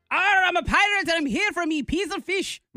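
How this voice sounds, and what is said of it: Unsteady pirate accent, Irish-Jamaican tinge. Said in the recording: “Is that an Irish pirate? ... There's a little Irish in there ... it gets a little bit Jamaican-y ... It's not a steady accent ... It started strong ... it tapered off”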